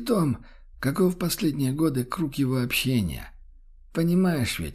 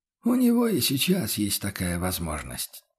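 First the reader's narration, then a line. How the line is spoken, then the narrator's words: Heavy sigh, confessor. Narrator (Russian): тяжело вздохнул духовник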